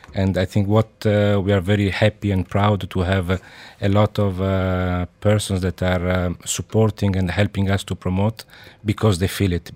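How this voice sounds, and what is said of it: Slightly thick Italian accent. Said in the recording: “a slightly thick Italian accent”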